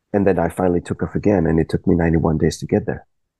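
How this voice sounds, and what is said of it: Quiet, trailing-off voice. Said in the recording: “you might need to speak up a bit ... Your voice is dropping down a bit”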